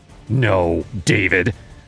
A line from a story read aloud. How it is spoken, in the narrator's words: snapped, her eyes blazing